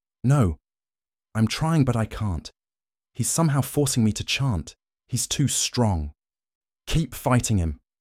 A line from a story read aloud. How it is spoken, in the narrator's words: Gasping for air, Maris replied